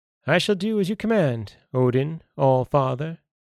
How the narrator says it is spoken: he said

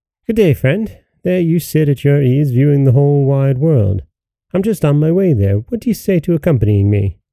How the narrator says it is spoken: greeting him cheerfully said

